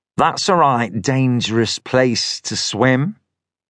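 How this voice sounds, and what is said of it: Thin nasal northern English accent. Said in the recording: “He spoke in a thin, nasal northern accent.”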